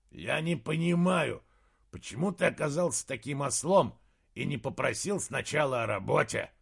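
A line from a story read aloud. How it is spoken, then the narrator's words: Growled. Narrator (Russian): прорычал Фривару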